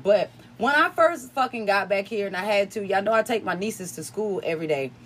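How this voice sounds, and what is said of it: Slight country twang. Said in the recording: “that's where my little country twang come from”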